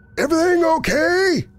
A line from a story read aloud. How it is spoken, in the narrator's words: Kevin yelled from downstairs